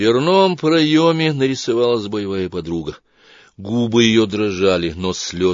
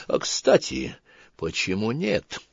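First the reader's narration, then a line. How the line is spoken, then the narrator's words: Whispered call. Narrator (Russian): позвал шептом Лана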